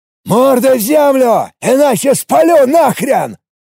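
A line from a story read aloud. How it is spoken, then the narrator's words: Roaring. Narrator (Russian): проревел Гриша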